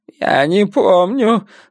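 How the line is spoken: Whining. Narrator (Russian): захныкал бритоголовый

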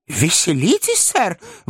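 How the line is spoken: Exclamation. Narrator (Russian): воскликнул мистер Пиквик

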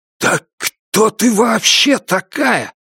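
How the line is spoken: Hoarse wheeze. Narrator (Russian): прохрипел он

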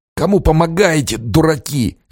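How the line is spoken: Hoarse, tearful. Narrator (Russian): хрипел Железнов, подняв мокрое от слез лицо

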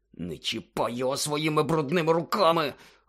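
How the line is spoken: Barely audible hiss. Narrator (Ukrainian): ледь чутно прошипів Гаррі

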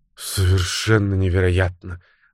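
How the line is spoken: Breathless. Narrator (Russian): выдохнула Фреда

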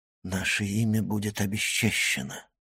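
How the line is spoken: Gloomy whisper. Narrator (Russian): мрачно прошептал Максимилиан

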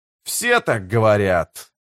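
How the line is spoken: Grumbled. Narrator (Russian): проворчал Карса

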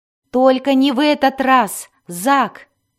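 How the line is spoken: Shouting. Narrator (Russian): закричал Дзирт

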